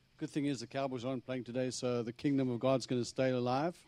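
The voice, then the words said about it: Strong Texas accent. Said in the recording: “As you can hear, I have a strong Texas accent.”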